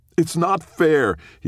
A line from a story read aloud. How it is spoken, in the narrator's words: he shouted at Benjamin